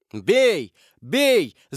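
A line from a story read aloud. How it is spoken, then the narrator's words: Urgent group shouting. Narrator (Russian): закричали преследователи, видя, что жертва может ускользнуть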